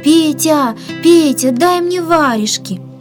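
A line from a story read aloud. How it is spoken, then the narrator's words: Shouting. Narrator (Russian): Он кричал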